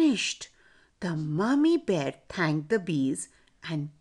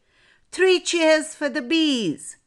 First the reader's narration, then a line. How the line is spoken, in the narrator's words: Mummy and Papa Bear shouted